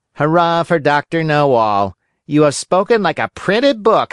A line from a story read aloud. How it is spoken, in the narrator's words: howled the boys, bursting with laughter